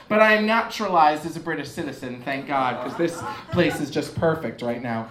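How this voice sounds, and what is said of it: American accent. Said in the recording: “You can hear my American accent.”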